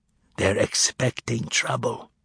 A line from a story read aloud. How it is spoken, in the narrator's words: whispered Juliak